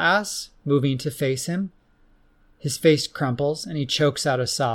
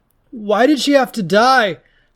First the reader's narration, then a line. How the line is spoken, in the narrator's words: Hagden moans into Paula's shoulder between rough sobs